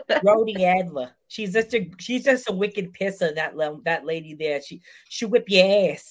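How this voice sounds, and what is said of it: Put-on Boston accent. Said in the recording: “In Boston, it'd be Adler. Is that Boston accent? ... Boston one”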